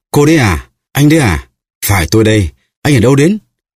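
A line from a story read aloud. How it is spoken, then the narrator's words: Joyful exclamation together. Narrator (Vietnamese): Hai người cùng reo lên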